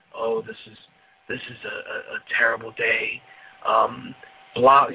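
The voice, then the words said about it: Somber, serious announcer voice. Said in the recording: “the somber fucking announcers ... serious voice”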